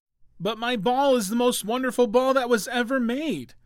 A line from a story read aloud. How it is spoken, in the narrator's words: cried the little prince